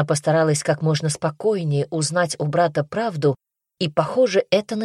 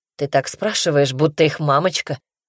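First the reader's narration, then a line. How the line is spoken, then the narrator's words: Mocking reply. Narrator (Russian): насмешливо ответил он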